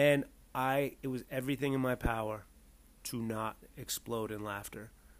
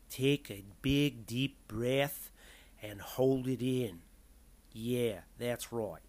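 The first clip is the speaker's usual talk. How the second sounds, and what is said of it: Imitated Australian accent, not great. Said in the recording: “I didn't do a great job in that accent ... an Australian accent”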